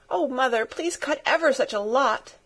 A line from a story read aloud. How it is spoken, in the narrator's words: begged Pin, sniffing valiantly